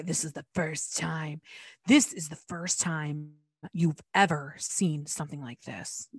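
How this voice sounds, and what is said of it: Imitates another person's voice. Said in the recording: “That was my impression. It wasn't great”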